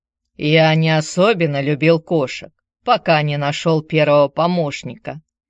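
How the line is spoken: Remark over loud purring. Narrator (Russian): заметил он под аккомпанемент могучего мурлыканья кота

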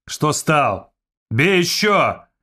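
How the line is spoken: Shout. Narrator (Russian): крикнул один из его приятелей

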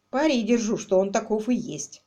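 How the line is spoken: Gloomy grumbling. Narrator (Russian): угрюмо проворчал Квиллер

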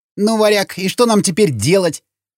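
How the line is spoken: Grumbling. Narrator (Russian): проворчал Сквернослов

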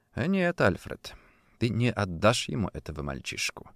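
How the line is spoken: Quiet, resolute, to himself. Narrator (Russian): сказал он себе тихо, твердо решив

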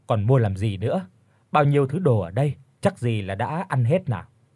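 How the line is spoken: Loud laughter. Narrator (Vietnamese): Bác Kiên cười lớn rồi nói

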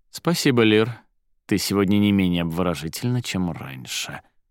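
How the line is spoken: Sighing. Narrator (Russian): вздохнул он

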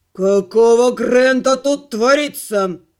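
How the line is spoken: Growled. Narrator (Russian): прорычал он

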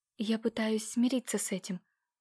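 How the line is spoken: Quiet timid babble. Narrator (Russian): тихо пролепетала в ответ

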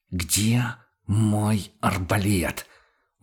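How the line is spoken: Strained hissing repeat. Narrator (Russian): Уже на пределе шипения повторил охотник

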